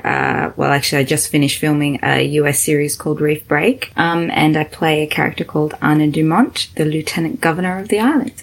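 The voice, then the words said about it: Australian accent. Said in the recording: “I'm Australian, as you can tell with the accent.”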